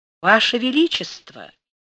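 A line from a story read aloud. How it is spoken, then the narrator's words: Honeyed voice. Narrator (Russian): медовым голосом сказал Панин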